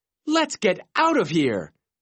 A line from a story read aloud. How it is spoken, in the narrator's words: Carlos yelled